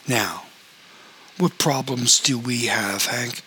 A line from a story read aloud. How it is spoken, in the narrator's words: asked in a purr